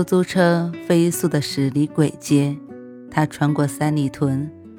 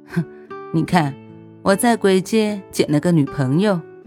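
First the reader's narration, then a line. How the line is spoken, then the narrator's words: Wry, bitter laugh. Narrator (Chinese): 我苦笑一声，说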